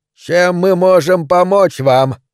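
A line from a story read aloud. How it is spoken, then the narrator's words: Yelled. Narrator (Russian): Майор Грюнвальд заорал в ответ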